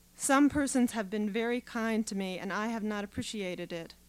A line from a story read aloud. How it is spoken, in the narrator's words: Mike said